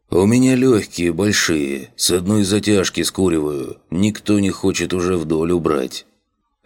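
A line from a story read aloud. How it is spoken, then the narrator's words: Embarrassed deep voice. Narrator (Russian): Смущенно улыбнувшись, пробасил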